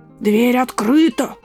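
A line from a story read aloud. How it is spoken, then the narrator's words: Hoarse growling wolf. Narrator (Russian): прорычал хриплым голосом волк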